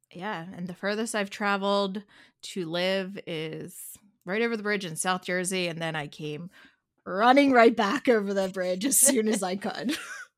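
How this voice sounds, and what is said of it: Delaware County Philadelphia-area accent. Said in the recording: “You've got a Delco accent ... Delco accent, because I was born and raised right here in the suburbs of Philadelphia”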